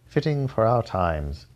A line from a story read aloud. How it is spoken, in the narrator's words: sighed